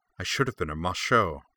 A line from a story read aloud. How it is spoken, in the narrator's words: the girl said bitterly, wildly